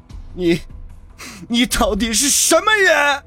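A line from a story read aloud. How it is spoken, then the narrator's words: Sudden hoarse, desperate roar. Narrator (Chinese): 张博生突然声嘶力竭的吼道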